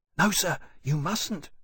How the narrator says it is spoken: Digby whispered urgently

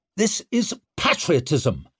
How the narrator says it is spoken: snapped Leo

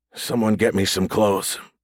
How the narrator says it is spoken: Hayden growled

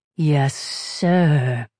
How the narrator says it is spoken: the ship mind answered, his voice unnervingly sibilant

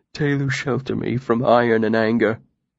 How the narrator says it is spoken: he murmured softly

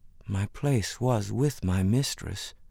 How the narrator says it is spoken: Ruth said quietly

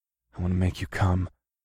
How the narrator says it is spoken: whispered between kisses

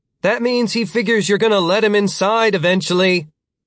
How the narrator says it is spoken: Britt the Younger shouted through the door

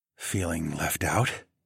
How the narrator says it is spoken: I whispered

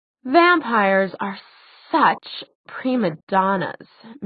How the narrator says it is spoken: sighed from the doorway

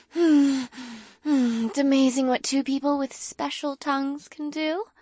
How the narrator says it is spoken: giggled into my ear softly

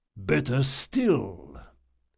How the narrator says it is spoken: the priest rumbled

